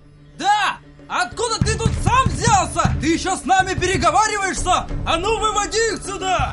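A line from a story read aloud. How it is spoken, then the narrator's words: Crowd shouting at length. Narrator (Russian): Долго еще кричали те люди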